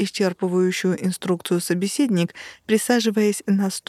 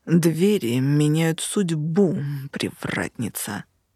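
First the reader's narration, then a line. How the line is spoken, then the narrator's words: Arrogant, grumbling through teeth. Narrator (Russian): процедил этот хам таким высокомерно брюзгливым тоном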